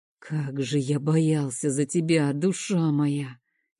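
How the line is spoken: Quiet. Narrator (Russian): тихо говорит он

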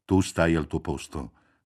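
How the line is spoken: Father's threatening voice. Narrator (Italian): disse il padre con voce minacciosa

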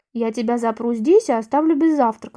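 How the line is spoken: Calm. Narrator (Russian): сказал дядя Карл, спокойно

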